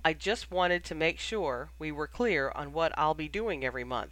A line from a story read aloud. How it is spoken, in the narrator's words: he said calmly